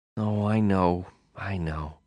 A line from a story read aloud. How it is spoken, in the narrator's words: she sighed